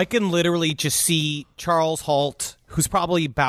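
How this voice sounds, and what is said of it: Usual voice. Nothing is said of it.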